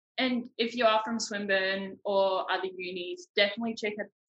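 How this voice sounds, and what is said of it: Put-on New Zealand accent. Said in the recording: “That's my Kiwi accent.”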